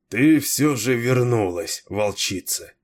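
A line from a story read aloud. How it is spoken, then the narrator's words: Tired. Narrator (Russian): устало промолвил Кейн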